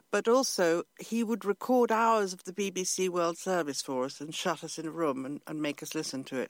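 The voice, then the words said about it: English accent. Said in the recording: “the English accent ... sound properly English ... there is no trace of an Italian accent”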